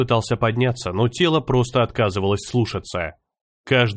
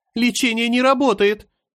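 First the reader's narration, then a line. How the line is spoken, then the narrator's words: Terrified scream. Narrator (Russian): В ужасе закричала она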